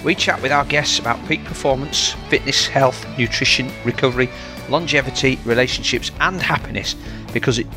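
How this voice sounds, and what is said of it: Yorkshire accent. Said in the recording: “you'll always hear a Yorkshire accent”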